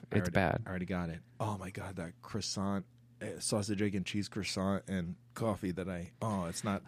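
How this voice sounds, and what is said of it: Whispering. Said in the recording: “sorry for whispering.”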